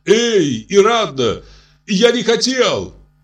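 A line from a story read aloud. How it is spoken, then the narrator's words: Shouted after someone. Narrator (Russian): крикнул вдогонку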